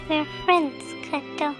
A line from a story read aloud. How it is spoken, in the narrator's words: Clara hugged him tightly, saying in a soft, lilting voice